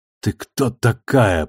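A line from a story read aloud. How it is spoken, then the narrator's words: Hoarse rasp. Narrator (Russian): прохрипела она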